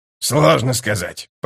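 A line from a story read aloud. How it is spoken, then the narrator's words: Muttered. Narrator (Russian): пробормотал скрипач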